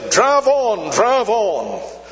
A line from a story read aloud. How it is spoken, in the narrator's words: suddenly they saw him wave his hand triumphantly and say